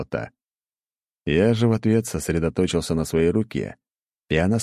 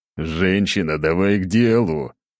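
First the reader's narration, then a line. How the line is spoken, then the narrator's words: Growling. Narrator (Russian): рыкнул я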